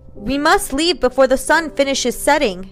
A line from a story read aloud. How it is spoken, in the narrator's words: he yelled back at her